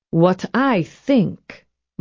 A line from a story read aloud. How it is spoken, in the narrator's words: Mama said slowly